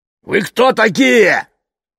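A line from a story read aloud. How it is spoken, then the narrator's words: Old man shouting. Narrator (Russian): прокричал старик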